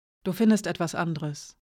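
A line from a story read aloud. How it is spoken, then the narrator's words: Quietly. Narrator (German): sagte leise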